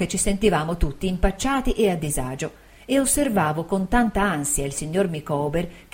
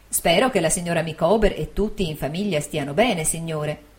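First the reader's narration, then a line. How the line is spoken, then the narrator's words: Plain. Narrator (Italian): disse mia zia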